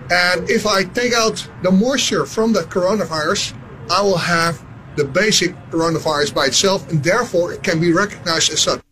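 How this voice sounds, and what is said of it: Dutch accent. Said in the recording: “That's a Dutch accent? I wouldn't have been able to place that.”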